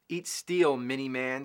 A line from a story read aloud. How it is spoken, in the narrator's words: sneered the crafty robot